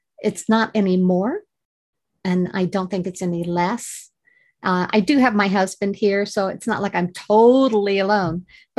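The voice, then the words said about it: Beautiful accent. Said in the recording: “you've got the most beautiful accent”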